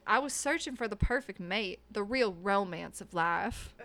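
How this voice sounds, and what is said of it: Put-on Alabama accent. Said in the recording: “let me get into my accent, Alabama ... Alabama.”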